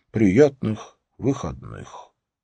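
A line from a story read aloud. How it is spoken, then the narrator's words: Mumble. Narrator (Russian): пробормотал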